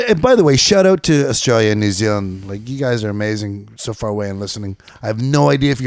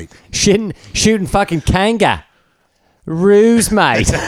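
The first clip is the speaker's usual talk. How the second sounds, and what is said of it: Put-on Australian accent. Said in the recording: “That's my Bondi accent.”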